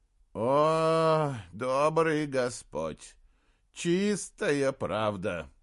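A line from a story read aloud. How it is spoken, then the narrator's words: Moaning. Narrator (Russian): простонал он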